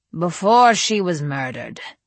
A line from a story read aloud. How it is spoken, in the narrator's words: said Adrian flatly